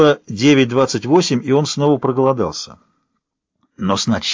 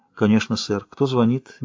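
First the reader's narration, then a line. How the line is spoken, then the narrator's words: Soft. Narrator (Russian): мягко ответили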